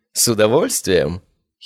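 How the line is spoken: Giggling. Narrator (Russian): хихикнула она

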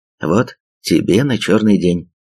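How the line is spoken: Plain. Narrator (Russian): сказал он

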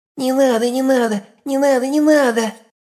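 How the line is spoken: Frightened babbling. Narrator (Russian): Залепетал плюгавенький мужичок

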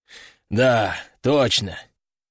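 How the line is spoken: Sighing. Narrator (Russian): вздохнул Кардиналов

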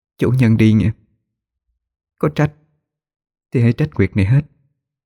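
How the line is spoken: Soft, tearful. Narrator (Vietnamese): Nguyệt khẽ rõ nước mắt rồi nói

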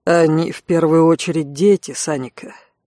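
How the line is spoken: Gentle. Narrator (Russian): мягко произнес Алан

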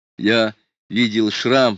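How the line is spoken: Nearly shouting. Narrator (Russian): сказал он, только что не выкрикнул, пытаясь привлечь к себе внимание

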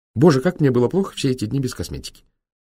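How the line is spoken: Nonstop chattering. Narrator (Russian): Безумолку тараторила она

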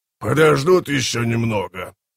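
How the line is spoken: Growl. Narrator (Russian): прорычал Хумбролтор

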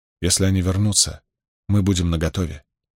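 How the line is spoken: Soft. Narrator (Russian): мягко произнесла она

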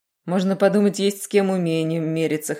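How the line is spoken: Snorting. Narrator (Russian): хмыкнула весна

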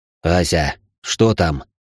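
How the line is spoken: Hoarse growl. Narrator (Russian): осипшим голосом прорычал Рабаданов

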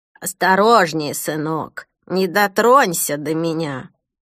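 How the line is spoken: Hoarse voice from darkness. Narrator (Russian): Хриплый голос, раздавшийся из темноты

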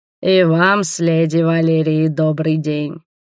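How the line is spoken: Tired greeting. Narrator (Russian): кивнул дракон, устало

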